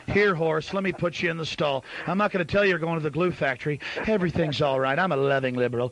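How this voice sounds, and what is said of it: Soft, gentle, mock-soothing radio voice. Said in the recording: “in that loving NPR voice.”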